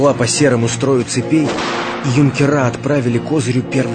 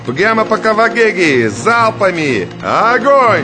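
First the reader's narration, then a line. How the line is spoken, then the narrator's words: Shouted command. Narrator (Russian): Най закричал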